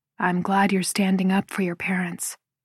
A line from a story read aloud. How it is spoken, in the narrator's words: he says in a quiet voice